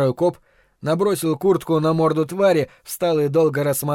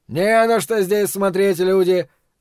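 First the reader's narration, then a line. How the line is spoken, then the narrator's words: Loud declaration. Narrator (Russian): заявил громко первый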